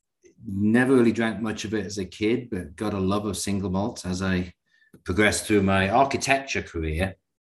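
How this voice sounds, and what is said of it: Northern English Newcastle accent. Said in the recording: “You can probably tell by my accent, I'm from somewhere completely different, Northern England, Newcastle upon Tyne.”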